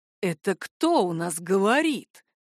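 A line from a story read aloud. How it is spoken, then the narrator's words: Hissed reply. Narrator (Russian): прошипел он в ответ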